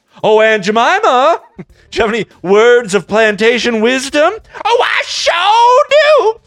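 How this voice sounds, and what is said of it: Put-on stereotyped Black American accent. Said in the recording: “my black impression”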